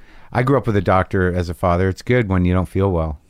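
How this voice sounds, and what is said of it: New York or New Jersey accent. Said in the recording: “How is it you have this accent that you have? ... I feel as if it's a New York accent. ... people think it's Jersey.”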